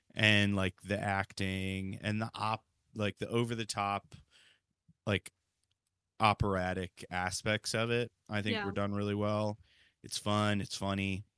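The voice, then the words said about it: Hoarse, fading voice. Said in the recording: “I'm losing my voice even more talking about this movie.”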